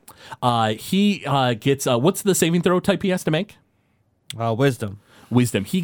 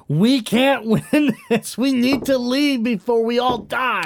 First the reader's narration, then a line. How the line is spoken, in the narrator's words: I turn back and yell one more time at Tilly